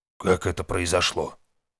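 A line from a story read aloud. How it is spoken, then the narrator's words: Old man, calm. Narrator (Russian): Старик внешне отреагировал спокойно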